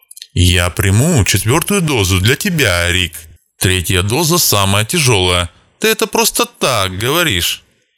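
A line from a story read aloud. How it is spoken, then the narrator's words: Joking voice. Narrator (Russian): сказал шутливым голосом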